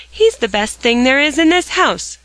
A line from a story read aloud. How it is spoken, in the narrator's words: cried Dick